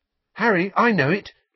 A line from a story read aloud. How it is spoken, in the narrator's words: someone panted up behind him